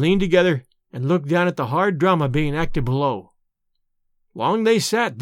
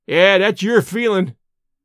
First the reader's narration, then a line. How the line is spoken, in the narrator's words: he shouted sardonically